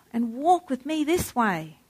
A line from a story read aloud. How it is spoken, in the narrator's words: cried the merry world